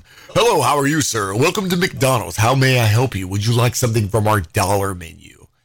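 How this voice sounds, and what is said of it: Put-on radio announcer voice. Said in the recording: “Let me put my radio voice on.”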